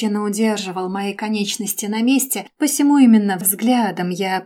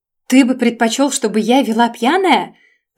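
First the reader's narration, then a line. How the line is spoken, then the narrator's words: Shouted in face. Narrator (Russian): Прокричала ему в лицо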